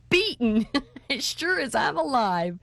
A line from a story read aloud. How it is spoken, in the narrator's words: shouted Wesley, doubling himself up with laughter